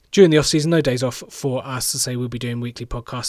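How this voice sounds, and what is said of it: Sore, strained voice. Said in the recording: “My voice is very, very sore indeed.”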